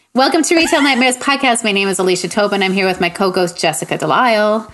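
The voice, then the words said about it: Exaggerated radio announcer voice. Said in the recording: “That's my best radio voice”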